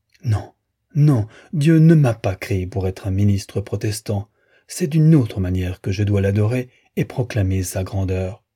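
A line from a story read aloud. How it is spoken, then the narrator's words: Anguished cry. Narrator (French): s'écriait, dans son angoisse présente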